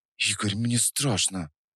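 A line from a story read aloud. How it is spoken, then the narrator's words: Whisper. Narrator (Russian): прошептала Настя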